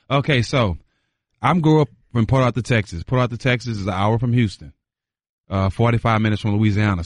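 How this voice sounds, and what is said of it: Gulf Coast bayou accent. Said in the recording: “your accent a little bit is a little bit more bayou than it is.”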